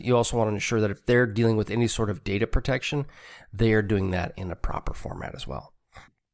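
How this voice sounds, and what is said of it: Congested voice from a cold. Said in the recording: “if I sound a little congested. I am fighting a cold”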